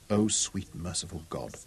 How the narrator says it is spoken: Robin whispered

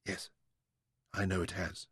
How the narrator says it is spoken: said

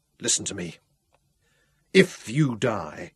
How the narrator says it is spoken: Mungo said harshly

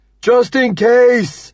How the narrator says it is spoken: he shouts

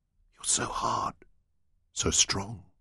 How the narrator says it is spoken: she murmured

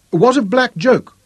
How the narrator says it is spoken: pleaded

